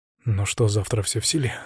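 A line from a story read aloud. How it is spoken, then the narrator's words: Quiet, confident question. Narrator (Russian): спросил он тихо, но уверенно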